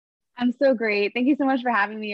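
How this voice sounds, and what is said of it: Excited, joyful, bubbly voice. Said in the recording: “hear the excitement in your voice... everybody listening can also hear this joy”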